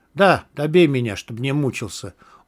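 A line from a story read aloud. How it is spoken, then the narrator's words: Smiling. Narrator (Russian): улыбнулся я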